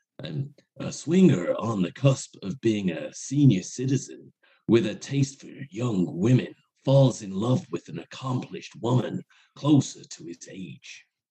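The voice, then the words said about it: Keanu Reeves impression. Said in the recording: “It sounded like a cross between Jack Nicholson and Keanu Reeves ... I actually did want to do a Keanu Reeves impression.”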